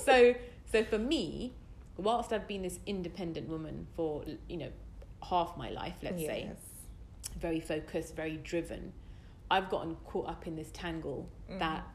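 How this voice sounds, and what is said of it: British accent. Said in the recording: “you guys hear the accent, so you know she's not American ... I'm as British as can be. ... She's extremely British.”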